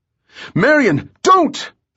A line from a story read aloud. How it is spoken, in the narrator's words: Bell cried